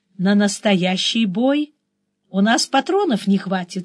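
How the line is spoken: Sighing. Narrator (Russian): вздохнула я

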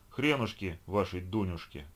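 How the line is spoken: Malicious sneer. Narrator (Russian): Гена злобно усмехнулся

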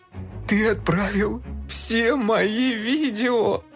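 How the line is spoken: Groaning. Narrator (Russian): простонал Фил

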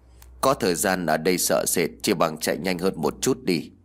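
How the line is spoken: Cold voice. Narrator (Vietnamese): Bà Tăng lạnh lùng nói

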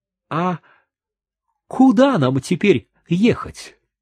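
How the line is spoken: Frightened question. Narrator (Russian): Гаспар испуганно спросил

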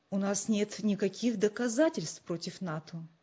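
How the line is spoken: Calm objection, father. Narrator (Russian): спокойно возразил отец

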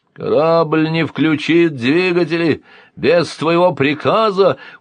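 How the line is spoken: Deep rumbling boom. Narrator (Russian): утробно прогудел Силант

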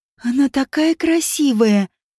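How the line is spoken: Girl breathing out happily. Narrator (Russian): счастливо выдохнула девочка

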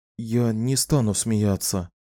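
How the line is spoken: Whisper. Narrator (Russian): прошептал Ниссан

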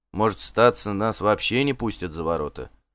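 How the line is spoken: Muttering under breath. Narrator (Russian): бормотал себе под нос Бьорн

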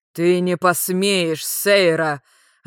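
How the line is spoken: Growled, giant. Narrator (Russian): рыкнул великан

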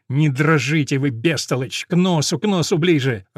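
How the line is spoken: Repeated angry hiss. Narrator (Russian): раз и другой зло шипит на него Сауза Феррейра

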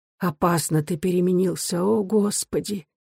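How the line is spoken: Quiet. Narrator (Russian): Она тихо молвила

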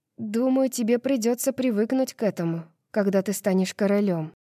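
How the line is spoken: Softly. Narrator (Russian): мягко произношу я

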